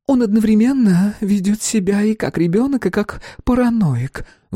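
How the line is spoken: Sighing. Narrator (Russian): вздохнула Эллен

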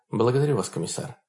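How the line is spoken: Quiet. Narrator (Russian): сказала тихо Хонор

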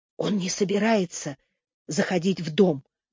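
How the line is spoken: Whisper. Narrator (Russian): прошептала Генриетта

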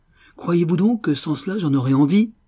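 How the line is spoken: Exclaimed. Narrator (French): s'écria Raffles

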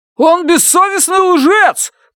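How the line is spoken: Distant shout from crowd. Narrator (Russian): выкрикнул кто-то из глубины зала

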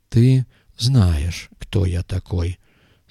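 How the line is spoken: Calm repetition. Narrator (Russian): спокойно повторил Камаль Абдель

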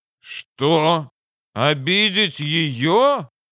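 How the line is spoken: Exclaiming. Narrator (Russian): воскликнул Наливайко

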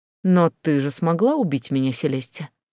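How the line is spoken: Calm. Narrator (Russian): спокойно ответила я

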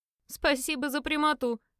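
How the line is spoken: Chuckling. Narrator (Russian): хохотнул Лайн

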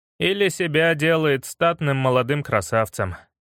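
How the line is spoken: Sigh. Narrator (Russian): вздохнул я

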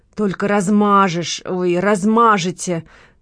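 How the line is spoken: Growling. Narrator (Russian): прорычала Лола

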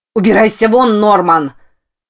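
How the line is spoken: Shouting. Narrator (Russian): Заорала Рози

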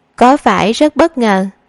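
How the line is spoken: Giggling. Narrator (Vietnamese): Tạ Tần cười khúc khích

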